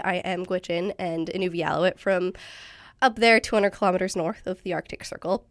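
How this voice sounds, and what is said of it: Raspy, hoarse voice from illness. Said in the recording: “my voice is really raspy because I rang in the new year sick ... now I sound different”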